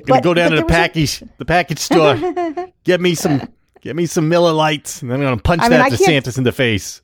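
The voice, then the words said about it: Put-on New Hampshire accent. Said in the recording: “In his New Hampshire accent.”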